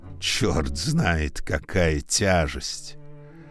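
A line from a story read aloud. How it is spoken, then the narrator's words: Grumbling. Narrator (Russian): ворчал всю дорогу флейта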